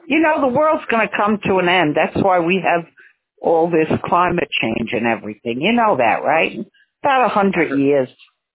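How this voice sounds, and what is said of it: Heavy New York accent. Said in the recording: “You have a real New York, you have a heavy New York accent. You still haven't lost.”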